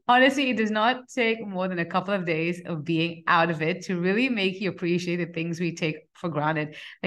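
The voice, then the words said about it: Nasal, congested voice. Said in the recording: “my voice is kind of nasally today. I'm just coming off bad bout of the flu”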